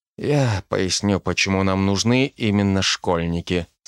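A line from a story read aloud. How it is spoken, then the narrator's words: Quiet. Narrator (Russian): сказал он тихо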